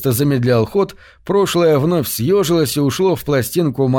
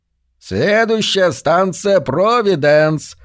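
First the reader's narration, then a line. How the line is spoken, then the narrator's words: Loud blaring radio. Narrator (Russian): завопило радио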